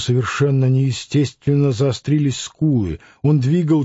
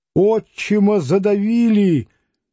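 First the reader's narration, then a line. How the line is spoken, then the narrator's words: Woman shouting. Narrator (Russian): крикнула она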